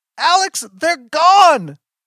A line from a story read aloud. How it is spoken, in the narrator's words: She's screaming